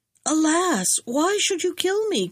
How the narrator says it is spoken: cried the fisherman

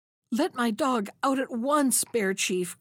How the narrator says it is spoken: cried he

